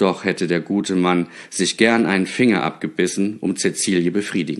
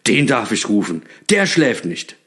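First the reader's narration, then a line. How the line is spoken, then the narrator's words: Delighted call. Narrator (German): rief Knecht Ruprecht erfreut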